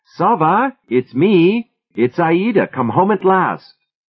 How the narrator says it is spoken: forced what could pass for a smile onto her face, and called out

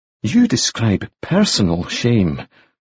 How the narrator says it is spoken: Moody said in a low voice

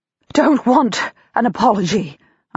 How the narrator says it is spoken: say breathlessly

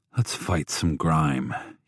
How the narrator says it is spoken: he muttered

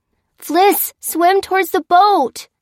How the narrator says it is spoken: shouted Jack

